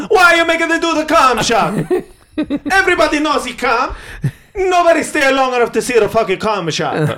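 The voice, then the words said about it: Put-on Italian accent. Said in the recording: “is that Italian accent? ... It was pretty good.”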